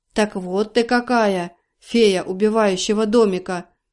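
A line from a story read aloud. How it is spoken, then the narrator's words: Deep voice. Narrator (Russian): пробасил он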